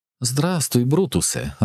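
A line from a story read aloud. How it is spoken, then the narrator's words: Joyful exclamation. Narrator (Ukrainian): радісно підхопилася Мелінда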